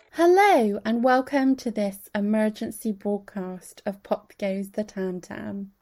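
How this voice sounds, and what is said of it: Strained voice from screaming. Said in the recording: “My voice sounds a little bit different because I have been screaming for most of the morning”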